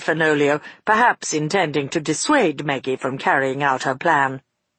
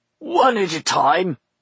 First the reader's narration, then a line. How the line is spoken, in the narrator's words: he grunted at the old man